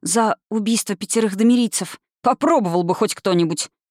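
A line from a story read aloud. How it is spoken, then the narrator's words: Furious, through clenched teeth. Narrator (Russian): яростно процедил Кьюр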